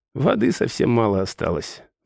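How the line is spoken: Sighing. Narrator (Russian): вздохнула Тайра

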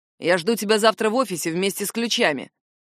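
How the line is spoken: Rude curt remark. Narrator (Russian): грубо бросает

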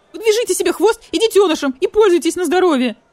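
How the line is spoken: Shrill coyote reply. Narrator (Russian): визгливо отвечал койот-йот

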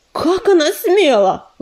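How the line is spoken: Indignant shout. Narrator (Russian): возмущенно закричал Белохвост

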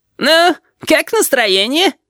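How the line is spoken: Giggling question. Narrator (Russian): спросил хихикающий голос Рибалтера

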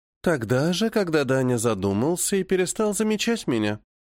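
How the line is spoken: Pouting, affectionate. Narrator (Russian): надувает губки Альва

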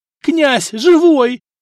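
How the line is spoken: Joyful yell. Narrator (Russian): завопил Сбыслав

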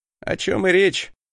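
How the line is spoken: Scoffing snort. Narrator (Russian): хмыкнул я

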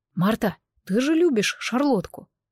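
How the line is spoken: Quiet voice. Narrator (Russian): Сок тихо подал голос

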